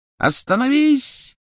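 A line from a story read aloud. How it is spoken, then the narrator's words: Piercing shout. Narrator (Russian): пронзительно крикнула Беллатриса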